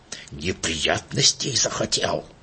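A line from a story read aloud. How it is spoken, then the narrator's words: Spiteful hiss. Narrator (Russian): злобно прошипеть Иману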